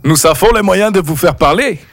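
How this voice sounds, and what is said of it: Bad put-on foreign accent. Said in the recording (French): “L'accent est très mauvais”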